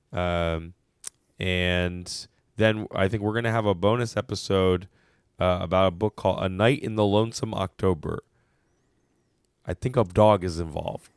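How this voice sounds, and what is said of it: Unwell, unusual-sounding voice. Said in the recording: “I blame your voice ... sorry about my voice”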